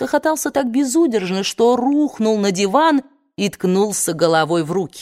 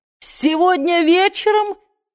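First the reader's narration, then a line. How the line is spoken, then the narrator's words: Burst out laughing. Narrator (Russian): расхохотался Ред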